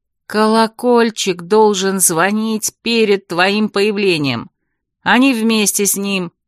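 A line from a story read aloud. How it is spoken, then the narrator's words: Ingratiating question. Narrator (Russian): Анах вкрадчивым тоном спросил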